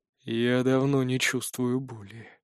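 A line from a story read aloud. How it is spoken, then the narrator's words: Muffled reply. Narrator (Russian): глухо отвечает наш противник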